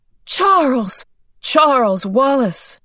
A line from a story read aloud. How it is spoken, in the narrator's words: he cried out